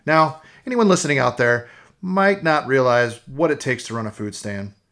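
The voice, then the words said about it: Tired, exhausted-sounding voice. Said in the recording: “If you can't hear it in my voice, I'm tired, exhausted”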